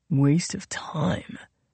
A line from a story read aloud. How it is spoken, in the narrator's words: Justin whispered to Sophie